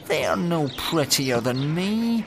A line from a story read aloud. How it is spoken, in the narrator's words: moaned the little fir